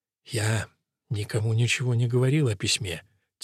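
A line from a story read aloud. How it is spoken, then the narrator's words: Quiet. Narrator (Russian): тихо сказал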